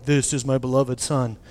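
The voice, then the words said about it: Deep Morgan Freeman-style voice. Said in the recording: “a lot more powerful and better voice, but like Morgan Freeman style”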